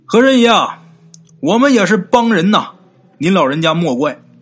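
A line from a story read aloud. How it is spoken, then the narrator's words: Calling out. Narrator (Chinese): 嘴里边就喊呐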